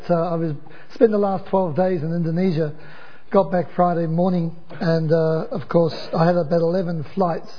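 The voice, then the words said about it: Hoarse, barking sick voice. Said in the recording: “Excuse my voice. It's affectionately called the Indonesian dog bark.”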